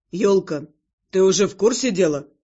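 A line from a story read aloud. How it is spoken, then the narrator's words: Calmer question. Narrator (Russian): Более спокойно спросил он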